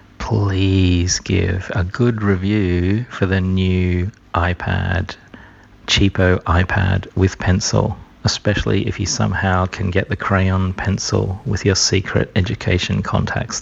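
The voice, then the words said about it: Whispering. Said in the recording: “I'm just whispering into my phone because I'm calling you from work.”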